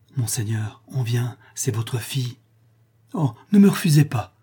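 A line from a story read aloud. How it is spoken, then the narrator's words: Moved, pleading voice. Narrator (French): reprit Rodolphe, d'une voix émue et suppliante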